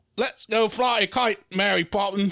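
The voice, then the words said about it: Put-on mock English accent. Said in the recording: “That's my accent. ... I just assume everyone in England sounds like Dick Van Dyke from Mary Poppins.”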